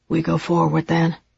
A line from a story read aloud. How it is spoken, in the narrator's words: he said quietly